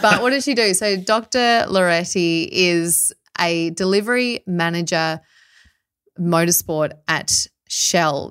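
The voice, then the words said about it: Australian accent. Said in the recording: “my Australian one”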